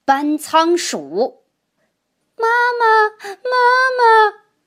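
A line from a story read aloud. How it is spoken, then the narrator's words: Children wailing. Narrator (Chinese): 小渠精们不停的哭喊着要妈妈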